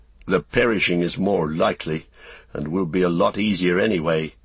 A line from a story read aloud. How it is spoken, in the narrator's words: he said grimly to himself